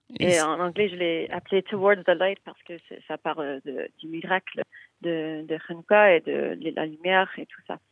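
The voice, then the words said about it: Canadian accent in French. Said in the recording (French): “ton délicieux accent canadien”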